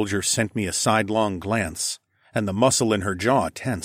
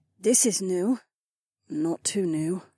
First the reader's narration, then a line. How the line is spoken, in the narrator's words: Kat muttered